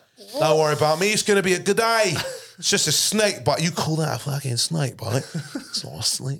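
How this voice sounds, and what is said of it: Put-on Australian accent. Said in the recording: “What kind of Australian accent was that? ... Australian accent.”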